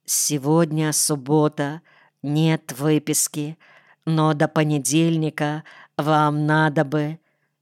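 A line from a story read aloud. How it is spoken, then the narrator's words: Quiet. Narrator (Russian): Она тихо сказала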